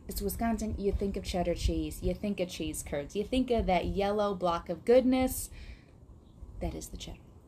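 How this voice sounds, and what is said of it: Wisconsin accent. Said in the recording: “I love the accent that came out ... I regain my Wisconsin accent”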